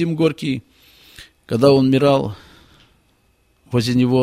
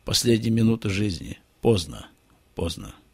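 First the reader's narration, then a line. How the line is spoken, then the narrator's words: Whisper. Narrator (Russian): Бальзак шептал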